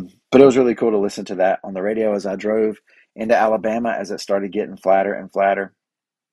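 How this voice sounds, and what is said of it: Usual voice. Nothing is said of it.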